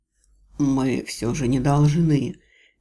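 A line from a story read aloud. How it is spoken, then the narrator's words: Soft, breathless. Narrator (Russian): мягко проговорил он, пытаясь выровнять дыхание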